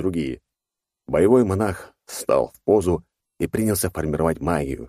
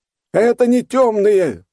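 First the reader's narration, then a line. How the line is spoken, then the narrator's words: Yelling monk. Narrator (Russian): завопил монах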